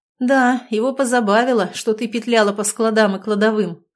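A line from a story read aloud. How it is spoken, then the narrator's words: Amazed snort. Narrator (Russian): хмыкнул Никита, поражаясь мне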